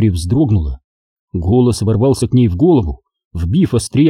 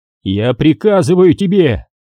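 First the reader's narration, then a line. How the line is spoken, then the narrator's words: Shouting. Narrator (Russian): закричал он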